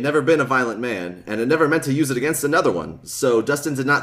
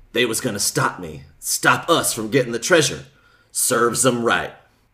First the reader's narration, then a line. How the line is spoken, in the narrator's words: Jess said in a low voice